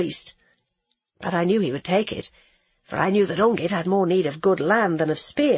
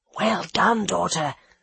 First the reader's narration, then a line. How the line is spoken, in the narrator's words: whispered the fox